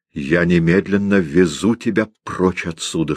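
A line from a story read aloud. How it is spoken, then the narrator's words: Plain. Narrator (Russian): сказал Макс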